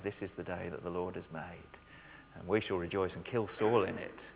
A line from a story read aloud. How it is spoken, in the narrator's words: singing quietly